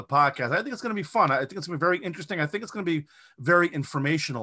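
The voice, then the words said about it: New England accent. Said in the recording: “my New England accent”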